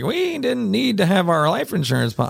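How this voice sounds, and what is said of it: Poor old lady voice impression. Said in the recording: “I'm going to do my old lady impression. It's terrible. I don't do impressions.”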